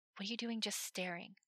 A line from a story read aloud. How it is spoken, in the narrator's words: Levi whispered